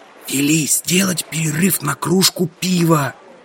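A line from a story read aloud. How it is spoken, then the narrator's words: Whispered. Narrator (Russian): шепнул я Гурбонже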